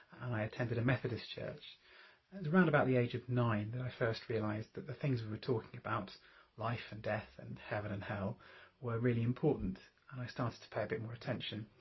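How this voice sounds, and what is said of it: English accent from near London. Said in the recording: “I grew up just north of London, perhaps you can hear that in my voice”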